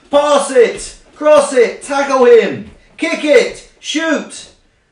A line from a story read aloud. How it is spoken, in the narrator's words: we can be heard shouting from the stands